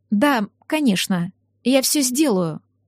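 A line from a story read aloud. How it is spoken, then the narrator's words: Steady unwavering voice. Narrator (Russian): не дрогнувшим голосом сказала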